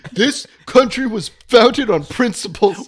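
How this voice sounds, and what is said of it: Imitates an elderly politician's voice. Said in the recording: “your Bernie Sanders impersonation”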